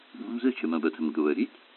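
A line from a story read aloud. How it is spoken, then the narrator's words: Mutter. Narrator (Russian): пробормотал Керк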